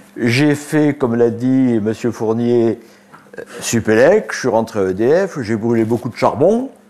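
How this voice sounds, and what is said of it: Provençal French accent. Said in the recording (French): “Je suis né en Provence, donc vous verrez que mon accent, je ne l'ai pas perdu.”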